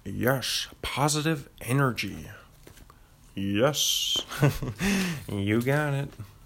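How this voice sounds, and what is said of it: Brody Stevens impression. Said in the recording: “I actually do a decent Brody Stevens impression ... it's not difficult. You just have to get that cadence down.”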